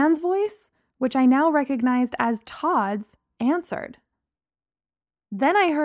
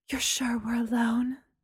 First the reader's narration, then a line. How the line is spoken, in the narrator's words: Mary's voice whispered